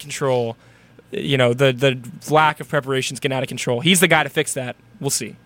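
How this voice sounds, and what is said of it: Usual voice. Nothing is said of it.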